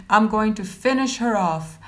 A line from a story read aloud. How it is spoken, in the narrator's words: snapped back